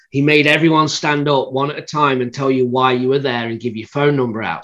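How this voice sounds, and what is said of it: British accent. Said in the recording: “with my accent, the standout anyway ... my accent”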